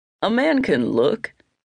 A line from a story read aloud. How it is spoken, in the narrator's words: chuckled